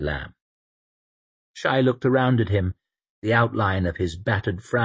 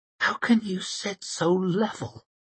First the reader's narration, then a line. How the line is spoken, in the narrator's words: she whispered at him